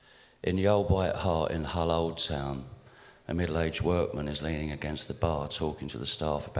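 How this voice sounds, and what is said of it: Usual voice. Nothing is said of it.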